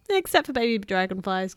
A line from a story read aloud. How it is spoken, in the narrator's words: giggled Tiny